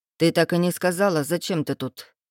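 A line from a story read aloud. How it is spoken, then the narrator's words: Rough, tense voice. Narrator (Russian): его голос звучал грубо от напряжения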